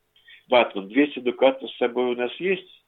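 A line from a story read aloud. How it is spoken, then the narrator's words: Plain. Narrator (Russian): спросил Богинский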